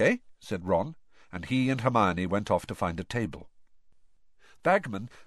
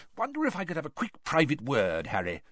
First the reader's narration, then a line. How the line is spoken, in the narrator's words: said Bagman eagerly